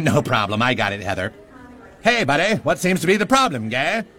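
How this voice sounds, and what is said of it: Mock Canadian accent. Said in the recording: “we speak like they spoke mocking Canadians on South Park ... I don't speak Canadian.”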